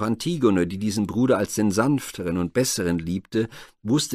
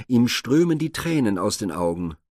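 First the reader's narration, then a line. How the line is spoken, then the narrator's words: Calling out. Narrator (German): rief sie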